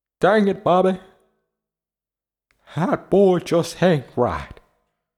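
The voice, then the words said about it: Hank Hill cartoon character voice. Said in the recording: “my Hank Hill impersonation and impression”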